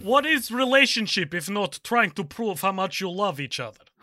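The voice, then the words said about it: Put-on Russian accent. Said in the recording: “Sorry for the Russian accent.”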